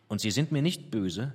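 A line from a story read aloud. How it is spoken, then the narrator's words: Plain question. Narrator (German): fragte ich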